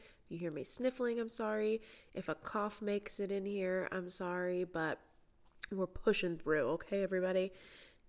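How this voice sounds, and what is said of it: Congested voice from a cold. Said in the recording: “I do have a cold, so that's why I might sound like I have a cold.”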